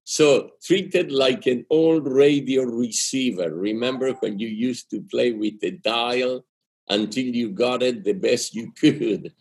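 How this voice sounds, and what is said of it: Argentine-accented English. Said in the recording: “It's my accent. ... I'm from Argentina. And when you learn English later in life, it comes out rusty like this.”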